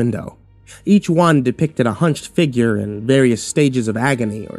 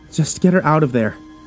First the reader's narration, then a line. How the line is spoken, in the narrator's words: he pleaded